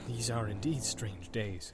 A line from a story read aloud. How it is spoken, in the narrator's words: he muttered